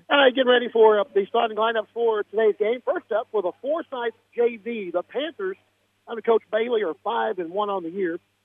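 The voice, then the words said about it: Sick voice with occasional breaks. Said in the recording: “apologize for my voice... I've been battling this whatever is going around for the last couple of days... You may hear a little bit of a break every once in a while, and I'll try not to cough on you”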